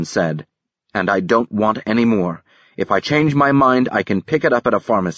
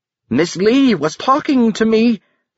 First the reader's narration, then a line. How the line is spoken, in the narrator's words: the peddler said loudly